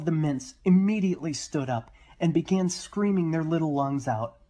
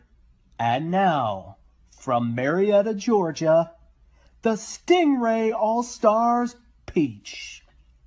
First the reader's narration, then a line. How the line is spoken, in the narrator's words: The PA system roared